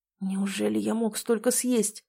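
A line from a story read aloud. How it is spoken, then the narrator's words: Whisper. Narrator (Russian): прошептал Демьян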